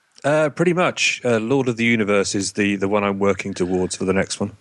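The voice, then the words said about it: English accent, authoritative-sounding. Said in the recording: “whenever you say that with an English accent, it sounds so authoritative”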